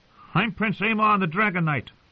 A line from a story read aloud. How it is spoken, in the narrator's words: John would call out